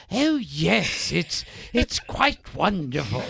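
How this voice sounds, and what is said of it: Put-on posh English accent. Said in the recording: “if they're doing an accent or a character in a movie ... they're playing an English character”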